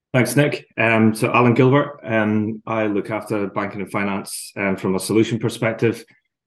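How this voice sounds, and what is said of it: Scottish accent. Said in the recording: “the accent gives away that you're originally from offshore ... if you've got a Scottish accent, you don't generally lose it when you travel overseas”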